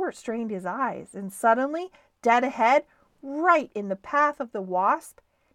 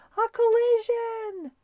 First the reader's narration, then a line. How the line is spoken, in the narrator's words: shouted the crowd on shore